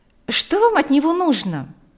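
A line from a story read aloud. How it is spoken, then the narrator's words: Irritated question. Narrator (Russian): раздраженно спросила Марьяна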